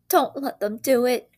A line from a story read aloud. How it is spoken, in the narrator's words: wailed Peter at the ceiling